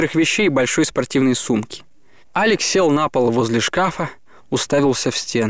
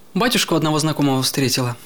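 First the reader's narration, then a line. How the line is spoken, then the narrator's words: Plain. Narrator (Russian): сказала она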